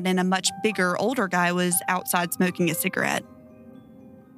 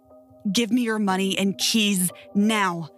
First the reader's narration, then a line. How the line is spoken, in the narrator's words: the first guy growled